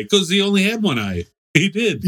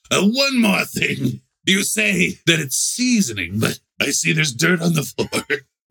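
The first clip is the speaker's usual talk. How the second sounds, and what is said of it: Poor imitation of a TV detective. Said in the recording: “Not even a good Columbo ... how bad the Columbo impression was”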